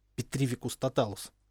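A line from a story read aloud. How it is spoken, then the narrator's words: Whisper. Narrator (Russian): шепнула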